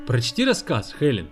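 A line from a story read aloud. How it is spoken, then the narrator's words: Laughing. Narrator (Russian): рассмеялся он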